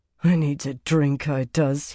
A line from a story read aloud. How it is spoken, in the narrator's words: he muttered hoarsely